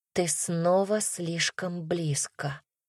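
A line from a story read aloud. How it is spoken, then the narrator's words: Whispered. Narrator (Russian): прошептала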